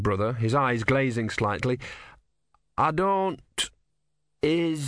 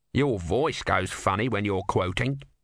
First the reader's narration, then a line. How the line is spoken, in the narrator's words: said Om